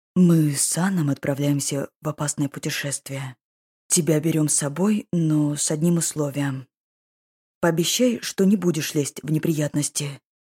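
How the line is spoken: Quiet. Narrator (Russian): тихо произнес

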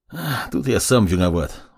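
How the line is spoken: Sighing. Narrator (Russian): вздохнул маг

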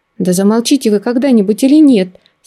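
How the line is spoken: Angry outburst. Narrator (Russian): В сердцах выкрикнула я

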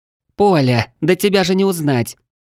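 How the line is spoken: Surprised girl's exclamation. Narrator (Russian): удивленно воскликнула светловолосая девушка с именем Кассиопея

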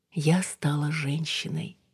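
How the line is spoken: Whispered announcement. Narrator (Russian): шепотом сообщила Алина новость своему отражению

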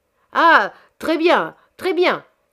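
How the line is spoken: Shouted. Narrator (French): cria à son tour Monsieur Chabre

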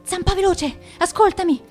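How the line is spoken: Breathless. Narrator (Italian): disse Penna Nera con voce affannata

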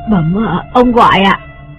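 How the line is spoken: Frightened trembling question. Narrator (Vietnamese): Chị biết sợ hãi, run run hỏi

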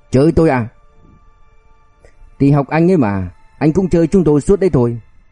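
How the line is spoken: Restrained, harsh growl. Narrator (Vietnamese): Hắn cố kìm nén, gằn giọng

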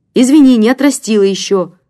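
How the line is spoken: Snappish, slightly emboldened. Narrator (Russian): огрызнулась слегка осмелевшая Оксана

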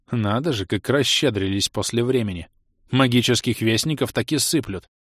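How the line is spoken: Caustic snort. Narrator (Russian): Едко фыркнул мрачный принц

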